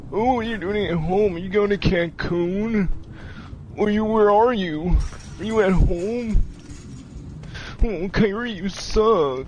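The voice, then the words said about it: Mocking impersonation of his critics. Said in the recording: “That's how y'all sound to me ... I like his impersonation of the haters, though ... That's how the haters sound to Kyrie in his mind.”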